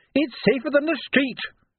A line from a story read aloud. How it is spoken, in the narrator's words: she yelled back, nose to nose with him